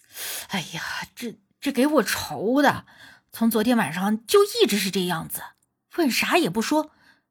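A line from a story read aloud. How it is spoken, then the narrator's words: Sighing. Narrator (Chinese): 李寿全叹气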